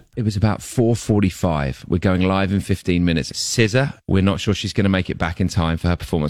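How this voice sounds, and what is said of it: Speaks with a noticeable accent. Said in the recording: “love his accent.”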